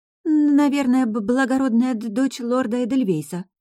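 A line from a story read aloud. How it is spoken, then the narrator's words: Muffled, dull. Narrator (Russian): глухо произнесла соседка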